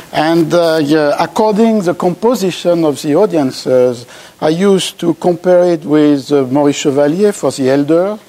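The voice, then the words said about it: French-accented English. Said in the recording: “my English accent. That is to say, a French one.”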